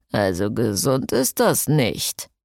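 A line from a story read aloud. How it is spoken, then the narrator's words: Murmuring. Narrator (German): murmelte Jason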